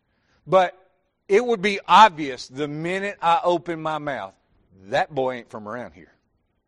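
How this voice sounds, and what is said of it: Southern American accent. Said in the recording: “the southern accent”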